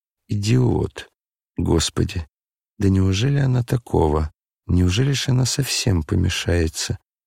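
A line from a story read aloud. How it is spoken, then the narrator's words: Sudden angry whisper. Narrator (Russian): Аглая вдруг гневно прошептала про себя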